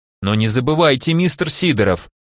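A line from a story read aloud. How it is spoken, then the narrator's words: Stern rebuke. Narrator (Russian): строгим голосом одернул я его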